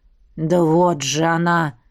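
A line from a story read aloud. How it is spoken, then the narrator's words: Growling. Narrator (Russian): прорычал мой старшенький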